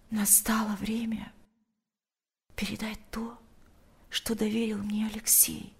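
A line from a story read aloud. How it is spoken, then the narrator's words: Whisper in the ear. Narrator (Russian): прошептала она ему на ухо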